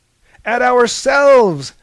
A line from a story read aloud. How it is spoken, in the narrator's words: shouted Prometheus